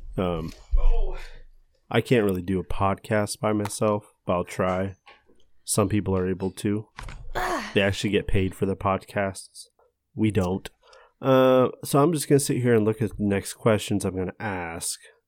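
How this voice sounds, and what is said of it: Serious, calm NPR-style radio voice. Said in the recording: “You were like doing an NPR voice, I noticed. ... I got a little bit more serious.”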